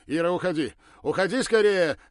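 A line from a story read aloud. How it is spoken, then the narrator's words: Desperate shout. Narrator (Russian): отчаянно закричал Ракелов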